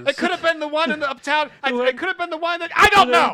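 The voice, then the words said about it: Raised, agitated shouting voice. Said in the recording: “I'm sorry for raising my voice.”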